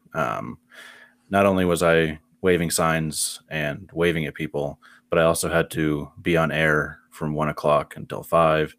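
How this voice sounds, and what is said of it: Husky worn-out voice. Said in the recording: “I've got my sexy voice going on. This is not a filter, um, nor am I doing anything to change my voice ... voice sounds good”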